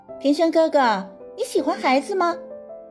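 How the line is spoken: Laughing. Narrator (Chinese): 祝海棠笑道

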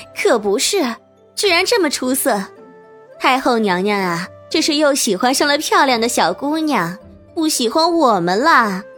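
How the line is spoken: Coquettish giggle behind fan. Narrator (Chinese): 拿扇子挡着脸，娇笑着

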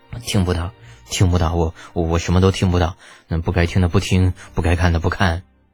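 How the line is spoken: Embarrassed persistent mumbling. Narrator (Chinese): 李浩尴尬的差点把头都缩进胸腔里边，那嘴里一个劲儿的嘀咕

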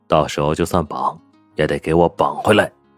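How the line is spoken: Low voice. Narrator (Chinese): 宋时清……低声道

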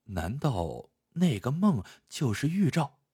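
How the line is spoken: Muttering to himself. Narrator (Chinese): 暗自嘀咕道

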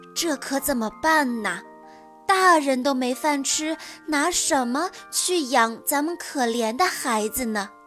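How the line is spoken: Worried sighing. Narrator (Chinese): 樵夫愁得，叹了口气，对现在的妻子说

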